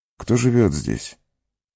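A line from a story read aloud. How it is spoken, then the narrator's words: Weak voice, question. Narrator (Russian): слабым голосом спросил он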